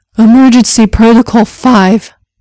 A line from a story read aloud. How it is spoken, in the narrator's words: the doctor gasped